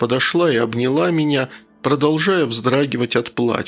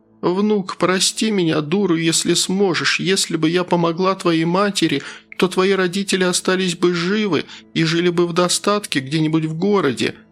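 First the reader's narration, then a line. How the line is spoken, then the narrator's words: Sobbing. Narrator (Russian): между всхлипами проговорила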